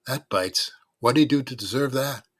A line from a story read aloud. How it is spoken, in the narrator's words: sighed